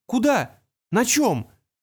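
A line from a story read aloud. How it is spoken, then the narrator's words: Exclamation. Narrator (Russian): воскликнул Артур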